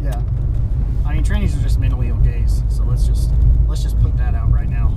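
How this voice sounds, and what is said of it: Southern American accent. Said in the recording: “the Southern accent”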